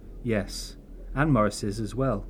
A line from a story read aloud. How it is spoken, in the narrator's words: Kate said solemnly